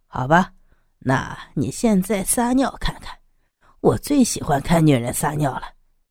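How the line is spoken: Leering, creepy. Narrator (Chinese): 刀疤强还是淫笑着 有点变态的说

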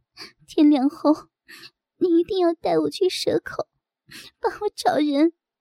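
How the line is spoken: Crying. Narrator (Chinese): 我哭着说

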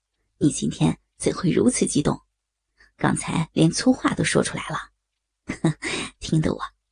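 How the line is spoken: Laughing. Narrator (Chinese): 梁振东点了点头，又笑道

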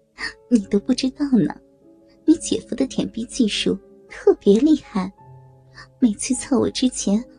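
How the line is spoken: Laughing. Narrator (Chinese): 曲小玲笑着说道

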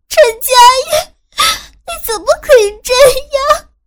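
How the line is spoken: Crying, shouting. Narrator (Chinese): 我边叫边哭

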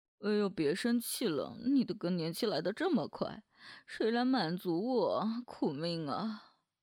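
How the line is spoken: Bursting into laughter. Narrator (Chinese): 林帆噗嗤一声就笑了

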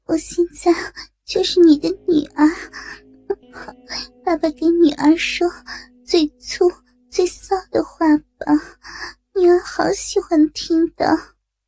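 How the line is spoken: Breathy coy murmur. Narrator (Chinese): 娇喘着 嘴里喃喃的说着

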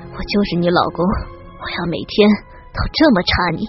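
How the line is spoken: Heavy panting. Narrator (Chinese): 他喘着粗气

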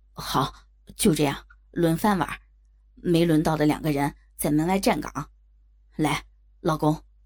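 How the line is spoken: Anxious. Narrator (Chinese): 老刘焦急的说道

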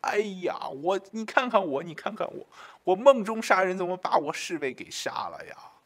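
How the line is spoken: Sobbing, remorseful. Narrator (Chinese): 曹操 痛哭万分啊，后悔不已，说

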